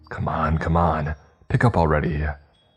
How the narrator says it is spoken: harshly muttered

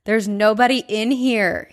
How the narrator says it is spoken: he yells

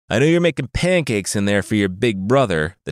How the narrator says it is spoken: the tiger snarled

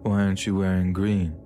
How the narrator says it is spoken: he asked me, slurring his words as he did so

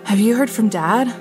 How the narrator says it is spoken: asked breathlessly

